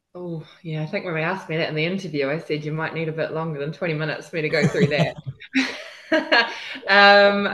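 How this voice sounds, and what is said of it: Slight New Zealand accent. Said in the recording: “accent, obviously not originally from the UK. I've got a slight Antipodean twang ... decided not to lose the accent ... originally from New Zealand”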